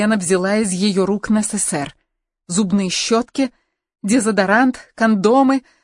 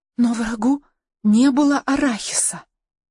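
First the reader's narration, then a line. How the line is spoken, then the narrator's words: Whispered. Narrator (Russian): прошептала Каролина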